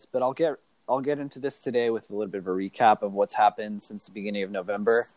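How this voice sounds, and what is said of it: Sick-sounding, slightly off voice. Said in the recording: “I'm going through a little bit of a sickness now, so if my voice sounds off or hard to hear”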